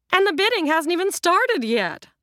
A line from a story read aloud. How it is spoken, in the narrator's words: the real estate agent piped up